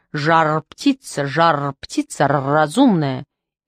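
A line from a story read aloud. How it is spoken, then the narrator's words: Offended bark. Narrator (Russian): От русского соленого словца Филюша нахохлился и гаркнул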